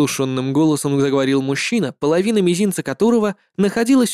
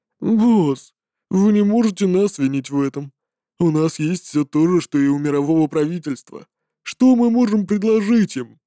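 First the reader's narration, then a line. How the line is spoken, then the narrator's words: Sleepy fat man. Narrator (Russian): Сонно сказал толстяк, который ранее спал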